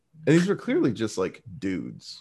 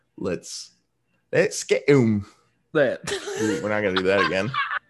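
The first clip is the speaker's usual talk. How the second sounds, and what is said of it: Poor put-on British accent. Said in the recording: “That was a terrible British accent.”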